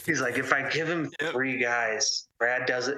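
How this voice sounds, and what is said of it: Imitates another person's voice. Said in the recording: “I'll do my David impression.”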